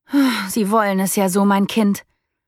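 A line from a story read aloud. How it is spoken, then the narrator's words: Resigned sigh. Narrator (German): ließ sie mit einem resignierten Seufzer fallen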